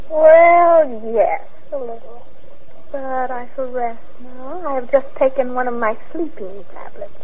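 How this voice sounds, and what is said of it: Tired, weary voice. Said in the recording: “You're tired, aren't you? I can tell from your voice.”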